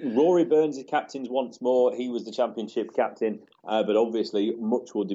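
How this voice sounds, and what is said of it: Usual voice. Nothing is said of it.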